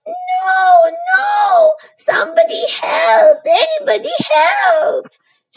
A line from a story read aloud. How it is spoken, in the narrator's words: She screamed even louder